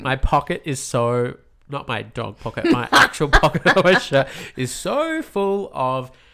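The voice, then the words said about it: Snuffly, congested-sounding voice. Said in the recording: “do I sound ridiculous? ... You sound like a snuffleupagus.”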